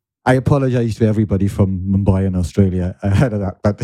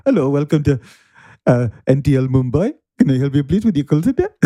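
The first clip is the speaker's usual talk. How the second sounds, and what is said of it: Unconvincing put-on Indian accent. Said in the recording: “That is the least convincing Indian accent I've ever heard in my entire life.”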